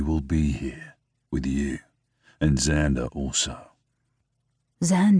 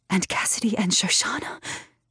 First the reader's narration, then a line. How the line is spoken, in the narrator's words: fighting the bubbling of tears, I whisper